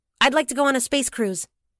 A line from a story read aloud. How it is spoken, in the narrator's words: As if responding to a dare, she blurted